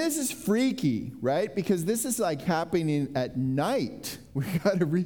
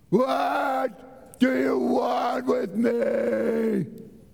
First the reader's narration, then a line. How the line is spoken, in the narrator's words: he shouted at the top of his voice